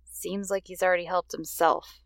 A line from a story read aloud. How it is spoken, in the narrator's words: Jean grumbled